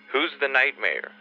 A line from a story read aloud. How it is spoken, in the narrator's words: I cried